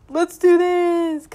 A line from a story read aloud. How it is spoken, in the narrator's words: Collins shouts